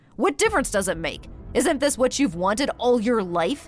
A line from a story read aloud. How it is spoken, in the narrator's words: he answered irritably